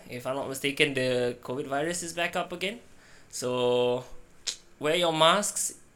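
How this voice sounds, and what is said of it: Unwell-sounding voice, rougher than usual. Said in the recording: “my voice isn't as sexy as usual ... it's been sick season as well”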